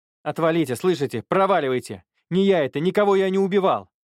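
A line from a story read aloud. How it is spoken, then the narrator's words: Desperate shouting. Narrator (Russian): прокричал парень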